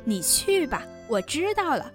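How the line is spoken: Laughing. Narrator (Chinese): 宝玉笑道

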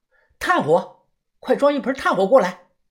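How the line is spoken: Urgent shout over the phone. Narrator (Chinese): 田哥立即打电话喊人

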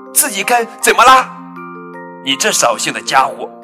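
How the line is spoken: Loud shout. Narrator (Chinese): 跳跳也扯着嗓门喊起来

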